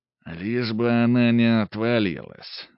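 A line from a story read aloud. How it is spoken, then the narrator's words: Grim joke. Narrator (Russian): мрачно пошутил Каримов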